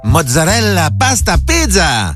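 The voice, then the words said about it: Put-on Italian accent. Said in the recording (French): “prendre l'accent quand ils cuisinent italien”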